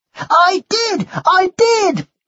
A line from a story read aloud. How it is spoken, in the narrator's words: yelled the boy angrily